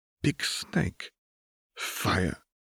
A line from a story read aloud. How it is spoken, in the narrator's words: Osbert choked